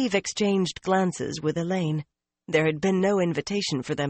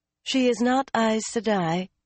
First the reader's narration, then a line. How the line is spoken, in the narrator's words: Elaine began calmly